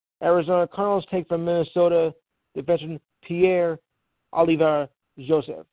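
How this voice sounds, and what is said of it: Put-on French accent. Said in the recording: “I'm doing it with a French accent.”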